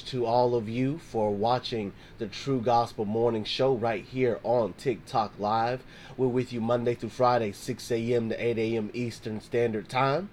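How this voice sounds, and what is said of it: Hoarse, worn-out voice. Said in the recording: “If you can already hear, my voice is kind of shot. ... choir rehearsal ... my throat is like,”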